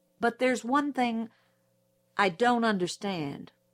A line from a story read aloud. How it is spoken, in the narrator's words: said Atticus